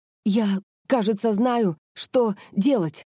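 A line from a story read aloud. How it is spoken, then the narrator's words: Breathless, strained. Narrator (Russian): Задыхаясь, выдавила она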